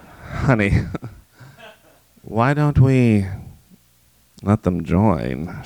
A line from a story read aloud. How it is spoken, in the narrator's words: She purred